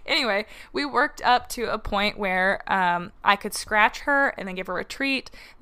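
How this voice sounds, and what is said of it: Shaky voice. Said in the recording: “my voice is so shaky right now”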